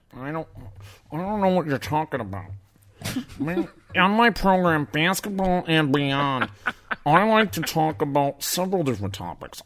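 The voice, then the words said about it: Coach K impression. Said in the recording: “Coach K impersonation”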